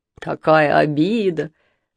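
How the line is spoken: Laughing mimicry. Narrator (Russian): смеясь, передразнивает Женя

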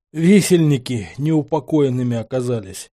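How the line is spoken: Forced out, dazed. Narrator (Russian): смог выдавить я из себя ошалело

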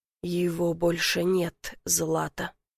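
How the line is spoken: Quiet, final, verdict-like. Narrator (Russian): говорит тихо, и в его голосе слышится окончательность приговора

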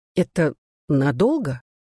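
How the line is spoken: Timid question. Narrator (Russian): робко спросила Глэдис

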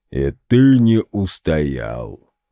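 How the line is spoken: Booming voice. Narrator (Russian): прогудел генерал

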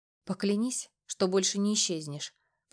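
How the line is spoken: Whisper. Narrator (Russian): прошептала она

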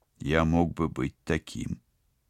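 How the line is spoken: Quiet. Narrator (Russian): тихо сказал киборг

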